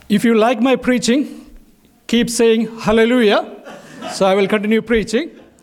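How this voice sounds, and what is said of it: Indian accent. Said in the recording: “my accent, maybe an Indian accent, difficult for you to understand”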